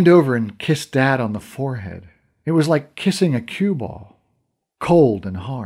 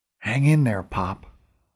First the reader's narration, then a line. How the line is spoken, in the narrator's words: whispered